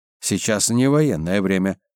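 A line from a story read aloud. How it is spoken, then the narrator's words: Displeased grumble. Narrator (Russian): недовольно пробурчал комиссар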